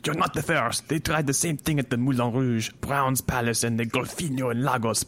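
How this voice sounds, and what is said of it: Put-on French-Canadian accent. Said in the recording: “That's my French-Canadian accent. You can tell it's been carefully studied.”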